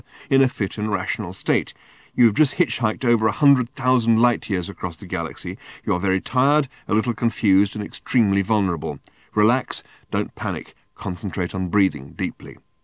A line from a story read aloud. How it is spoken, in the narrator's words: he continued to himself in the firmest internal voice he could muster